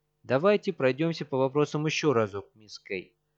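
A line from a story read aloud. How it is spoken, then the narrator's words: Absurdly indifferent tone. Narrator (Russian): произносит Фрэнк Фой до нелепости безразличным тоном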